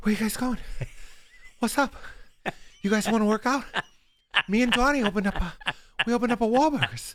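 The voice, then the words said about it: Breathless Mark Wahlberg impression. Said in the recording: “a Wahlberg impression ... he's always out of breath ... it's not closed at all. It's completely open.”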